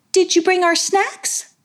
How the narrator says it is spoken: asked Madam in a light tone

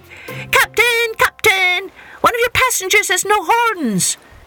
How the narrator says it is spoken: the rabbit called out

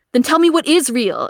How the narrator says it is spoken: Akito screams

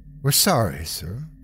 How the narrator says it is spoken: she said softly

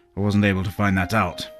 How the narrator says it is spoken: grunted

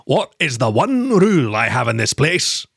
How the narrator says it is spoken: thundered

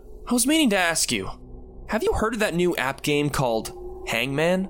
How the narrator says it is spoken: called out

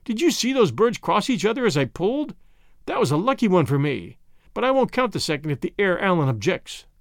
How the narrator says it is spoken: exclaimed Pereira

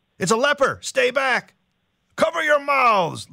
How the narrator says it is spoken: little James shouts

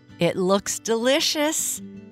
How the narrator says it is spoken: Jennifer said with as big a laugh as she could so early in the morning

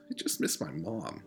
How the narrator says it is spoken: he confessed quietly

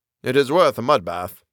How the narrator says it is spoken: said he

